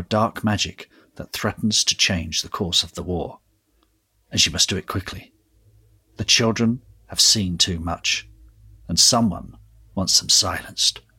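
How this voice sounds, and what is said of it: Polished radio announcer voice. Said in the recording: “Great, great, great radio voice there as well.”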